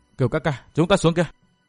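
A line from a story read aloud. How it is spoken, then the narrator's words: Said softly. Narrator (Vietnamese): Tiểu Tây Thi khẽ giọng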